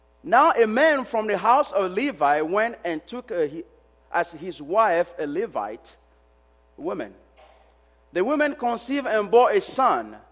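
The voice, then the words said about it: Speaker with a noticeable accent. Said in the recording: “I have an accent ... When I get excited, I speak too fast ... my accent”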